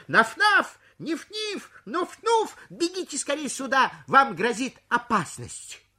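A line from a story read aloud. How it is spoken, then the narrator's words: Loud shout. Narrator (Russian): Он громко крикнул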